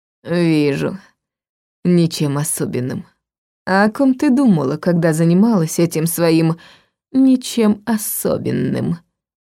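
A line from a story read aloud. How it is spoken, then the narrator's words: Hoarse question. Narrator (Russian): Хрипло спросил Дар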